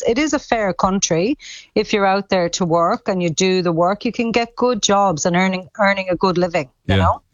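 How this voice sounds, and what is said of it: Irish Cork accent. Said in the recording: “You never lost your Cork accent”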